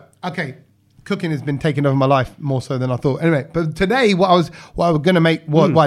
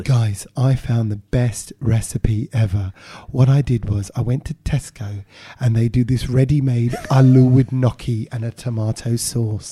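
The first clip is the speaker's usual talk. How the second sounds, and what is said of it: Put-on sexy Instagram-style voice. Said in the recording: “should I do it in the Instagram? ... Sexy voice.”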